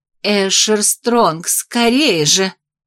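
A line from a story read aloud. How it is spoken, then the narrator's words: Urgent breathless. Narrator (Russian): выдохнула я настойчиво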